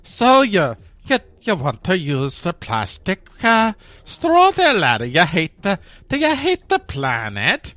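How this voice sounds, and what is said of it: Put-on Irish accent. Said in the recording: “Can you picture an authoritarian person with an Irish accent?”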